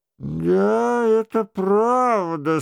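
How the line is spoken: Hollow, muffled voice. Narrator (Russian): сказал герцог Анжуйский таким глухим голосом, что король и Шико должны были прислушиваться к словам его с удвоенным вниманием

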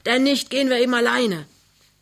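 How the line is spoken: Bellowed from outside. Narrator (German): brüllt Krümner draußen

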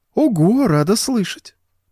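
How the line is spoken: Cooing. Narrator (Russian): проворковала она

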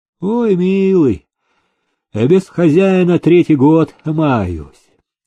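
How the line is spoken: Dreary voice. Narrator (Russian): унылым голосом отозвалась она

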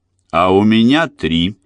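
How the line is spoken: Triumphant declaration. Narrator (Russian): победным тоном заявил Сидни

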